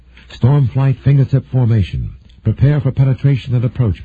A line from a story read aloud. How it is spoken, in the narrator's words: Patrick said, his voice controlled but irritated